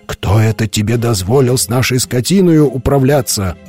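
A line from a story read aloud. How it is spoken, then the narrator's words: Indignant group shouting. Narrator (Russian): возмущенно кричали они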